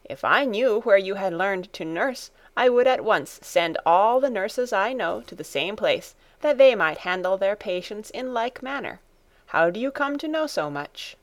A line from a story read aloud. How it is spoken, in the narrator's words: she exclaimed